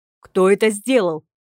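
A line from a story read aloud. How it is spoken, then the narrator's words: Sustained angry growl. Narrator (Russian): Не сбавляя тон, рычал лорд Брандт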